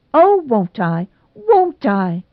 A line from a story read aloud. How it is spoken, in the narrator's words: cried Nora, so shamelessly